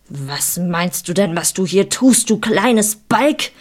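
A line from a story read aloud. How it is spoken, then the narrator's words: Shouted angrily. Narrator (German): schrie er mich an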